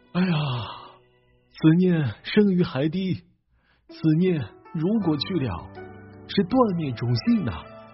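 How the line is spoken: Long lamenting sigh. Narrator (Chinese): 王阳明醒悟过来，仰天长叹道

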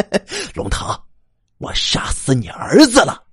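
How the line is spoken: Wild laughter. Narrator (Chinese): 一邪在不知名的角落里发出狂笑

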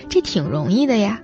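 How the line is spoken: Laughing. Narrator (Chinese): 主持人笑说

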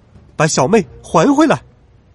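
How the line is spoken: Loud shout. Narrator (Chinese): 哪吒 大声喊道

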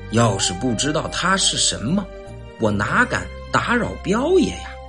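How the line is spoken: Long sigh. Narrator (Chinese): 韩四海长叹一声

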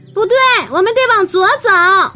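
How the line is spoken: Shouting. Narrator (Chinese): 乐天喊道

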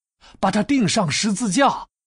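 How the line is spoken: Crowd shouting louder. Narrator (Chinese): 但他们却越发喊叫

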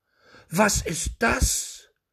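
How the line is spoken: Shout. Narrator (German): rief der Schneider

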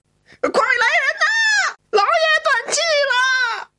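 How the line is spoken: Shrill desperate screaming. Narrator (Chinese): 张三杀猪般的喊叫声

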